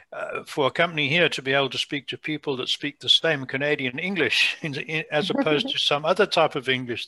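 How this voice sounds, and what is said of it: Foreign, non-Canadian English accent. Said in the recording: “as a foreigner, from my accent, you can hear that”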